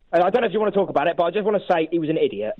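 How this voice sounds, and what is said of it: West Country English accent. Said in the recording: “Is that an Exeter accent?”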